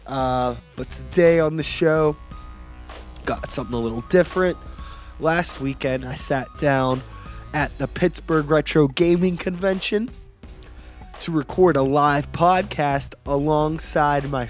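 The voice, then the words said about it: Slightly odd, cough-affected voice. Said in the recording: “My voice might sound a little weird. I've had this cough for the past few days”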